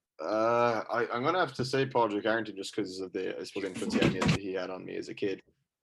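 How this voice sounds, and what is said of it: Irish Cork accent. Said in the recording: “the Cork accent”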